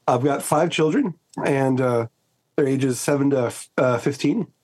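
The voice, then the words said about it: American accent. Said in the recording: “you can hear from the accent, I'm originally from the States.”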